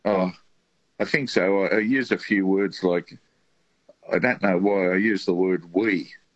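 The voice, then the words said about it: Accent with some Kiwi. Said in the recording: “accent ... It's got a bit of Kiwi probably in it”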